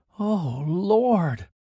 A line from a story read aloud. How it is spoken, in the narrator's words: gasped